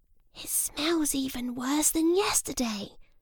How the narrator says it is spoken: said Jim quietly

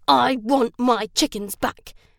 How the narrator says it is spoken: snarled

